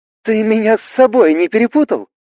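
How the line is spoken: Laughing girl. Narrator (Russian): засмеялась девушка

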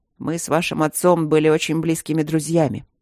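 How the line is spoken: Dry reply. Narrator (Russian): сухо ответил Трот

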